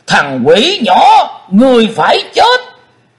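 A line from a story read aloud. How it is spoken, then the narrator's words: Loud roar. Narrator (Vietnamese): Xích Phát Âm Ma hắn gầm vang lên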